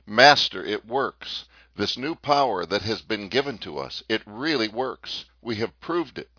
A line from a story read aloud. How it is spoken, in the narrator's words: cried excitedly